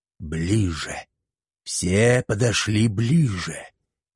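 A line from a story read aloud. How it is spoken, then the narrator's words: Hissing. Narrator (Russian): вновь прошипел колдун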